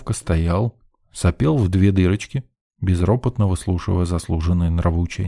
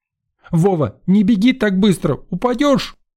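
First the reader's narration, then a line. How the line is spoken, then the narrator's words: Old woman shouting after. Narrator (Russian): крикнула вслед старушка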